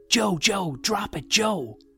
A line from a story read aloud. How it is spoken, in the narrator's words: Someone shouted